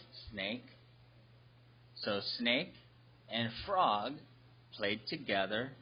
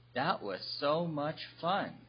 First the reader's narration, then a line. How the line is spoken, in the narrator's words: replied Snake